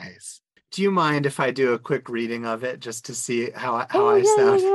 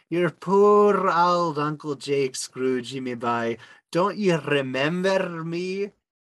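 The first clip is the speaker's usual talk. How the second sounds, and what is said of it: Attempted Scottish accent, sounding rather Irish. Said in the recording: “Scottish accent ... Outstanding. That was great. ... probably came off as more Irish than anything”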